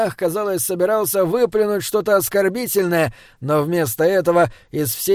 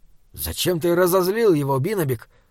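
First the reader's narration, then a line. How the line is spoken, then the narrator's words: Whisper. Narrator (Russian): шепнул Саймон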